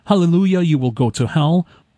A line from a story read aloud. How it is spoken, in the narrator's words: The other pastor joined in shouting